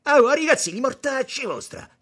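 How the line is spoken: Shouted. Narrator (Italian): gridò Tommaso vedendoli

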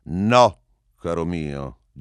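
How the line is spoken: Heated shouting. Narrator (Italian): gli gridai subito, riscaldandomi un po', sì, ad arte, ma anche sul serio, un po'

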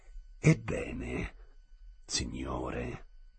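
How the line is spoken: Theatrical reply. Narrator (Italian): replicò Ghibiser con tono teatrale

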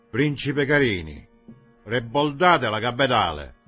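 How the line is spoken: Confident shout. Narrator (Italian): gridando con voce sicura

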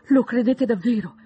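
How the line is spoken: Brightening, hopeful exclamation. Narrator (Italian): esclamò Elizabeth, illuminandosi per un istante

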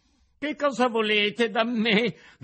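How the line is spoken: Frightened cry. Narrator (Italian): gridò Pinocchio tutto impaurito

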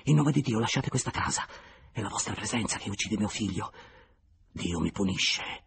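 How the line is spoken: Under breath. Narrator (Italian): aggiunse sottovoce

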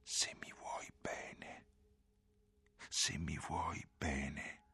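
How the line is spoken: Whispered. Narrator (Italian): sussurrò

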